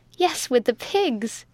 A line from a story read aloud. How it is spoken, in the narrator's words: she cried